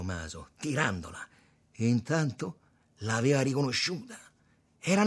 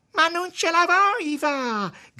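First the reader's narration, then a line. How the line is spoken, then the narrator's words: Whiny girlish wail. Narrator (Italian): gridava la donna, con una voce da ragazzina, facendo la piagnarella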